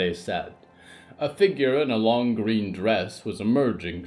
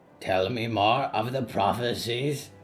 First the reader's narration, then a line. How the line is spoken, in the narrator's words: the omen croaked